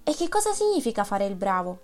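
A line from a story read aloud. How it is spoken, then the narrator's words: Male exclamation. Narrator (Italian): esclamò lui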